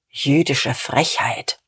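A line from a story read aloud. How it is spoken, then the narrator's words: Muttered. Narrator (German): murmelte Diederich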